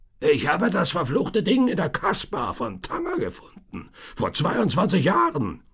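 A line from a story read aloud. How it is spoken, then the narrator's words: Tinker shouting ever louder. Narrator (German): fuhr der Kesselflicker fort und brüllte immer lauter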